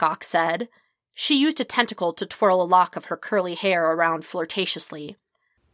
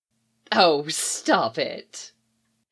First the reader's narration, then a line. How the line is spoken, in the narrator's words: she said, teasingly